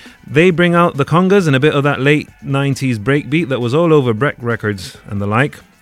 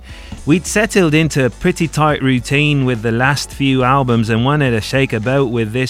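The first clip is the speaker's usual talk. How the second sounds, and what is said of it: Poor put-on Australian accent. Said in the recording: “that was my shitty impersonation of an Australian accent.”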